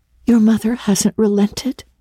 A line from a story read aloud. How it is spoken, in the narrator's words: she gasped